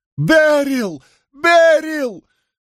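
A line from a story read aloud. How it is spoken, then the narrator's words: Yelled reply. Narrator (Russian): заорал в ответ Григсби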